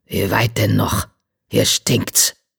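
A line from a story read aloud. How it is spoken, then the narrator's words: Growling. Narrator (German): knurrte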